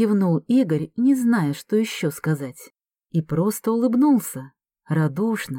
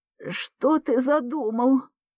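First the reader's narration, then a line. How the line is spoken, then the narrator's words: Hoarse rasp. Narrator (Russian): прохрипела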